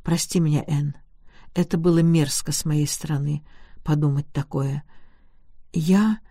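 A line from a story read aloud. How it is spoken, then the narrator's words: Timid. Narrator (Russian): Он же, робко шагнув к ней, сказал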